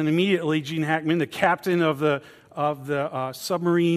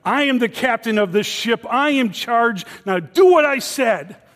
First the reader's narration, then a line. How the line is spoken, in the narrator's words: Gene Hackman's character starts screaming at him